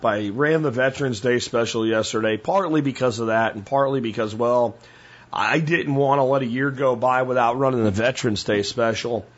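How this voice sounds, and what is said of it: Strained, worn-out voice. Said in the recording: “if you can hear my voice, I am still recovering from the workshop ... My voice isn't what it's supposed to be ... straining my voice”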